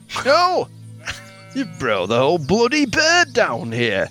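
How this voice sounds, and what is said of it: Put-on Yorkshire accent. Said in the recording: “marked as Yorkshire”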